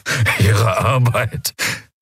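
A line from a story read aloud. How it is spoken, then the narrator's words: Croaking quiet laugh. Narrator (German): Telios produzierte ein Lachen, ein krächzendes, leises Geräusch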